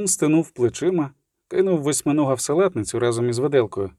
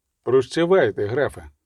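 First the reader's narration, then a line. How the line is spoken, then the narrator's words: Plain. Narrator (Ukrainian): сказав нарешті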